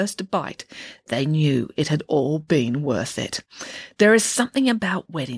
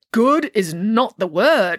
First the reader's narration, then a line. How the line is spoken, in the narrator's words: exclaimed Nanny Piggins